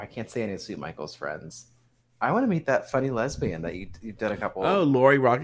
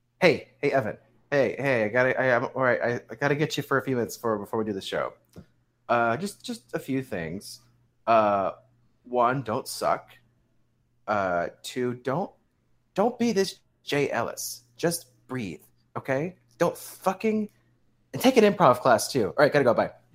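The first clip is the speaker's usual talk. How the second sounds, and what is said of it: Impression of the other host. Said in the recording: “do an impression of me”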